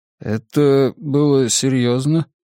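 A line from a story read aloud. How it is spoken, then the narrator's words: Strange, unnatural voice. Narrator (Russian): спросил я каким-то странным, неестественным голосом, совсем как корабль консула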